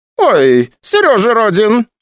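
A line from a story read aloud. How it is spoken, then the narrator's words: Excited exclamation, woman. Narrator (Russian): воскликнула вахтерша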